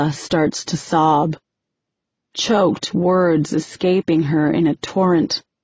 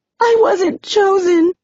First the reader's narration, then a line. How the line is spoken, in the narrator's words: Ella cries